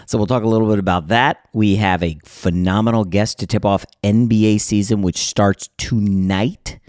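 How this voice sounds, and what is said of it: Slightly hoarse, partly lost voice. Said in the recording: “Lost my voice a little bit last night”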